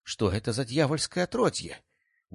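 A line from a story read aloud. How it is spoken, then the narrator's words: Surprised exclamation. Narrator (Russian): в удивлении воскликнул великий магистр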